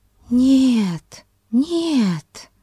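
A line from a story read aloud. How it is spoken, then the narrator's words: Gentle, tender. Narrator (Russian): сказала Консуэло ласково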